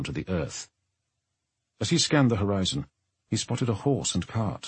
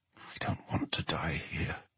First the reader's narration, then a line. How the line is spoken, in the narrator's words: he muttered